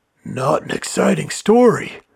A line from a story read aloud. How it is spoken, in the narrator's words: whispered Manfred